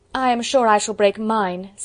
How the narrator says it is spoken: said Lydia

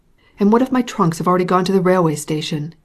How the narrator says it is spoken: he exclaimed in despair

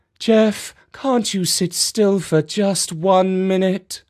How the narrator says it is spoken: Mum sighed deeply before imploring

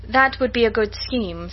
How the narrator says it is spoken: said Elizabeth

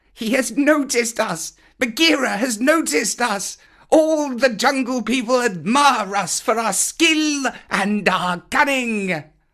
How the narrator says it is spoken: The Bandalog howled with triumph, shouting

